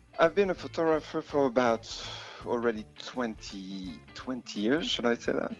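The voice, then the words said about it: French accent. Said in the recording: “I think France, you know, I still have the accent”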